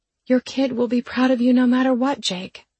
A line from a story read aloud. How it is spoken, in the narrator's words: I said feebly